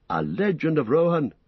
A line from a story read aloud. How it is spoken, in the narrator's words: cried Legolas